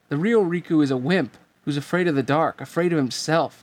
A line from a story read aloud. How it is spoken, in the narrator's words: the replica shouted